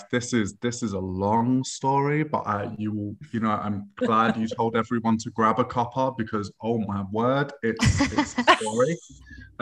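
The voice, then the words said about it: English accent mixing north and south. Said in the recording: “I was born in Essex, but I was raised in East London. And then when I was 17, I moved up to North England, to Manchester ... So my accent's a little bit like the north and south of England have had like a love child”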